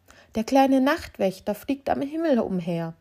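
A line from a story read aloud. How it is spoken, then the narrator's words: Flower woman calling out. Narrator (German): rief die Blumenfrau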